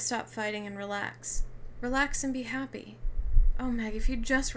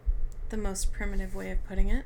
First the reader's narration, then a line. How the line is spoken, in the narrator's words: the man with the red eyes murmured